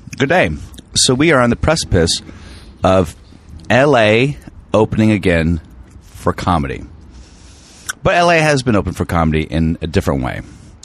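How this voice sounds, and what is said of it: Slightly froggy, hoarse voice. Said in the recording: “I like the way my voice sounds today. Good. A little bit froggy.”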